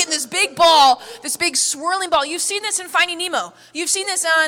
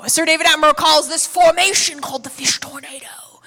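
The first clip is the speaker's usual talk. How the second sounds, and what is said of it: Imitates another person's voice, badly. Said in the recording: “Is that a bad accent?”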